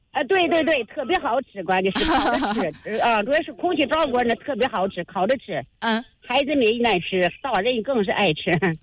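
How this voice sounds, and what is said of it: Noticeable regional Chinese accent. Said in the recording (Chinese): “您听口音，您是哪里人呢？ ... 我们老家是赵县那边的 ... 还不是石家庄咱们本地这边的”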